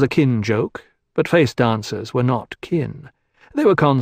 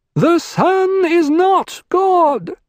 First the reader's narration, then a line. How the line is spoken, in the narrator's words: he shouted